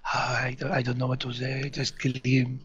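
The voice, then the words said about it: Breathy French-accented woman's voice. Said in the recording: “my Emmanuel Bert impression. It's supposed to be breathy in French.”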